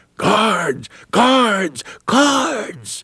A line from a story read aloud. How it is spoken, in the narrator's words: one freedom rider yelled